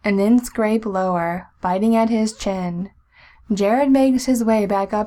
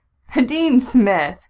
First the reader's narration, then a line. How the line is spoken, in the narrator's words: Jensen pants